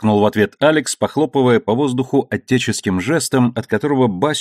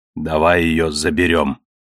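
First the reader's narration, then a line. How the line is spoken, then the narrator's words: Breathless forced calm request. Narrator (Russian): попросил Бася, переводя дыхание, чтобы голос прозвучал спокойно и ровно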